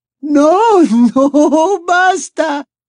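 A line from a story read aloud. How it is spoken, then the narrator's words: Echoing shout. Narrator (Spanish): gritó Martell la Llorona, y su voz resonó en las paredes revestidas de azulejos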